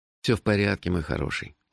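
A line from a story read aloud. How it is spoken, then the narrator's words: Tender. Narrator (Russian): ласково сказал я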